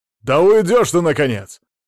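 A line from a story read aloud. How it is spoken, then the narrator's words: Barked. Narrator (Russian): рявкнул Мамонов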